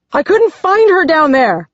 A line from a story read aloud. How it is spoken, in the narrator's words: yells